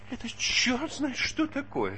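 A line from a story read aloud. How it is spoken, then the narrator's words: Whining. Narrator (Russian): скулил он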